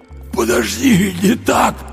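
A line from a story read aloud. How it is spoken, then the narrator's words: Hoarse wheeze. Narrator (Russian): просипел Андрей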